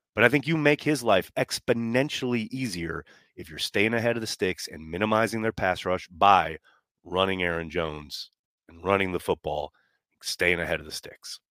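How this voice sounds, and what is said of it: Raspy throat. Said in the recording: “I got a little bit of a raspy throat here. I couldn't, I had a coughing fit a little bit ago ... can't really seem to shake it.”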